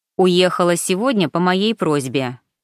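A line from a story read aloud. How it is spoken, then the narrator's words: Plain. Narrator (Russian): ответил Пауло Сабантини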